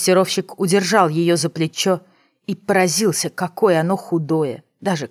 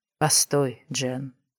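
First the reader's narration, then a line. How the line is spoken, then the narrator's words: Soft. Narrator (Russian): мягко сказал он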